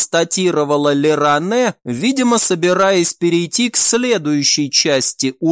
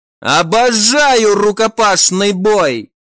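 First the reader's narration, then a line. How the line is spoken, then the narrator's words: Joyful shout. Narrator (Russian): радостно закричала Севил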